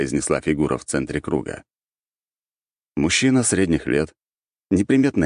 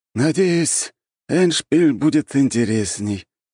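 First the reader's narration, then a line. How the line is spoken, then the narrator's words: Lazy puppet voice. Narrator (Russian): лениво произнесла марионетка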